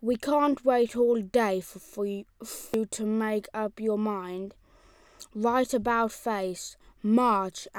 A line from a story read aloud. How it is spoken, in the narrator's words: said the old rain angrily